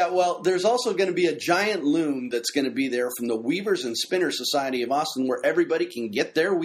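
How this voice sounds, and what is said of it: Usual voice. Nothing is said of it.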